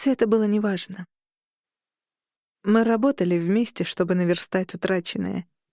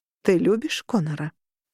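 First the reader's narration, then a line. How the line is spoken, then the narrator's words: Plain. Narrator (Russian): спросила Роза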